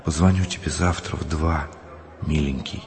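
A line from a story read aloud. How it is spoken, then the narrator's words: Woman's whisper. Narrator (Russian): Людмила шепнула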